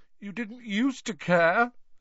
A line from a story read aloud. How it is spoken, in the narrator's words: said Myrtle, miserably